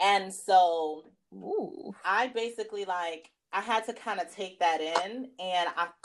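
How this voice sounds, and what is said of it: Usual voice. Nothing is said of it.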